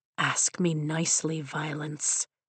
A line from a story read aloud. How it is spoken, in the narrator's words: he whispers